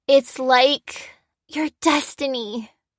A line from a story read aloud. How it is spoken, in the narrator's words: breathed Cassie